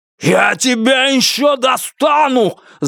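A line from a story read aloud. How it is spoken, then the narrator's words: Yelled reply. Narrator (Russian): заорал в ответ Бастер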